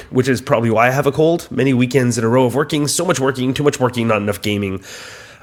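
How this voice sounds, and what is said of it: Congested voice from a cold. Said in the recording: “I have a cold, so if you can hear it in my various head bits”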